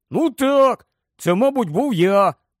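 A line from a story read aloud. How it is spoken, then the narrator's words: Plain. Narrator (Ukrainian): сказав Рон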